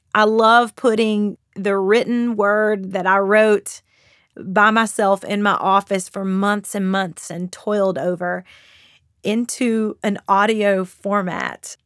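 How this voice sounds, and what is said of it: Southern Kentucky drawl with nasal tone. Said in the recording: “I have a bit of a Southern accent. I'm from Kentucky. So people say the Kentucky accent is the Southern drawl mixed with the redneck slang mixed with the northern nasalness.”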